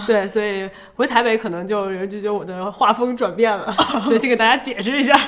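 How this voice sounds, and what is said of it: Beijing-accented Mandarin, not Taiwanese. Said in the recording (Chinese): “口音不像台湾人啊 ... 在北京我就是一个京片子”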